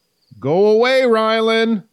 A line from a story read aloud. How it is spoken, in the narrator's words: Kai finally yelled over the edge of the platform